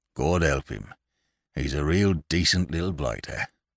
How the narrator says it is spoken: a blue-nosed, ragged veteran of Vimy Ridge muttered

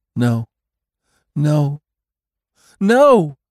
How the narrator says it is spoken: she wailed

